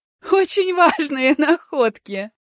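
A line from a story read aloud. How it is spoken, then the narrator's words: Laughing loudly. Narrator (Russian): расхохотался Ким Сан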